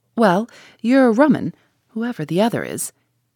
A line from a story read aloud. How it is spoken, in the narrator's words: So the man laughed and said